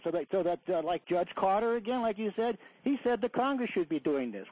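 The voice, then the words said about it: Slight Chicago accent. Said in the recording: “I hear a little bit of a Chicago accent”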